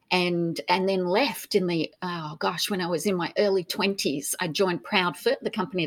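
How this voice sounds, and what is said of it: Faded Australian accent. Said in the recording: “your very different, unique accent. ... My accent, I think it's still Australian”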